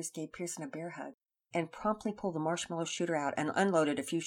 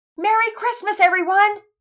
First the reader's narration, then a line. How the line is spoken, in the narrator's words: Pearson shouted